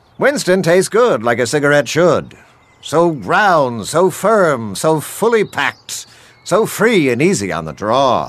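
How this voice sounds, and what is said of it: Announcer voice. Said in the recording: “Do it in your announcer voice.”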